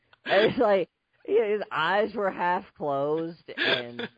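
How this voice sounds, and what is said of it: Usual voice. Nothing is said of it.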